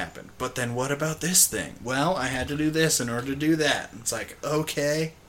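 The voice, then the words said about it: Mocking surfer-dude voice. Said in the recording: “I go to that surfer voice a lot. Whenever I make fun of people.”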